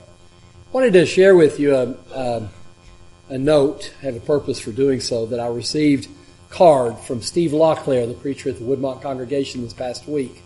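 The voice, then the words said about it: Worn, strained voice. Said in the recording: “as the hours have progressed, my voice has gotten worse”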